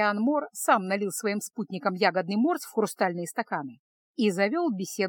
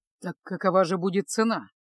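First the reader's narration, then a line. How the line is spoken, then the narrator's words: Grim repeated question. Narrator (Russian): мрачно повторил свой вопрос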